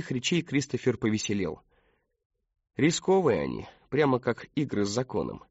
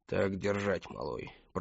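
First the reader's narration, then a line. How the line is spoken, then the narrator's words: Muttered. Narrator (Russian): пробормотал Эмброуз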